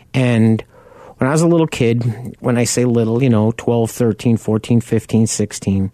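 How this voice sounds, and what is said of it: Long Island New York accent. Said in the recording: “if you can't tell from my accent, I grew up on Long Island.”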